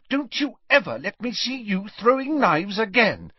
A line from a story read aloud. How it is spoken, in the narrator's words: she said furiously